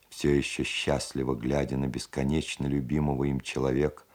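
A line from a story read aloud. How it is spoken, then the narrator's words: Plain. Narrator (Russian): сказал Устименко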